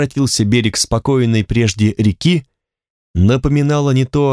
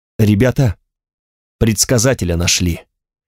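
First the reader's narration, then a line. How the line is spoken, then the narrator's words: Quiet speech behind. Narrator (Russian): негромко говорил кому-то Аген за моей спиной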